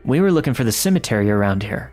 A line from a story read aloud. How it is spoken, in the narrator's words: my girlfriend said